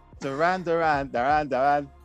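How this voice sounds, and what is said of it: Funny put-on accent. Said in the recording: “If you say it in a funny accent.”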